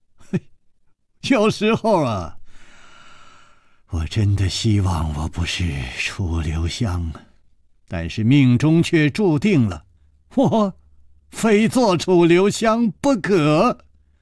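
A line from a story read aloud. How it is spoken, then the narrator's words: With a smile. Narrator (Chinese): 楚留香笑了笑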